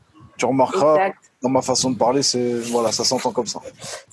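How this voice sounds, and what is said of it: Slight Cauchois Norman French accent. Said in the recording (French): “on a un petit accent un peu cauchois ... Ça mange les mots, ça change les o en e”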